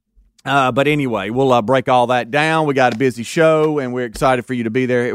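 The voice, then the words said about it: Hoarse, strained voice. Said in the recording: “lost my voice”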